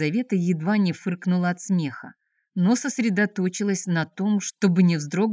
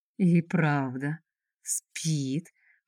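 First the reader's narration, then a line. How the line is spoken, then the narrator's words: Slow drawling voice. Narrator (Russian): проговорил он каким-то тягучим голосом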